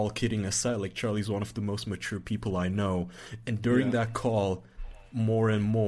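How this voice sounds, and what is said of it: Usual voice. Nothing is said of it.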